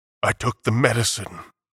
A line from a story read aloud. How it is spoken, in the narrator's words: he murmured